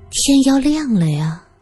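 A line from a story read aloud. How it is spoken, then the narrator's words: Wistful sigh. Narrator (Chinese): 田玲玲悠悠的叹了口气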